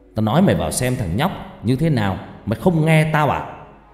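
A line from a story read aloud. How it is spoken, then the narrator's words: Sharp shout. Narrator (Vietnamese): Thầy Phong liền quát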